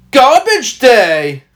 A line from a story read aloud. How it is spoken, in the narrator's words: shouts